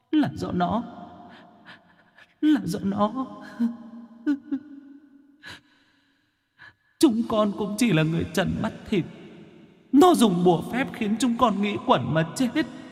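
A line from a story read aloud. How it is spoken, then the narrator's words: Sobbing ghosts. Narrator (Vietnamese): Vong hồn mẹ con mụ Cầm lúc này bị lão Tam lão Tứ khống chế, quỳ khóc thút thít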